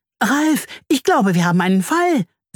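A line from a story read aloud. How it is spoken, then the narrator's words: Hummed excitedly. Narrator (German): summt sie aufgeregt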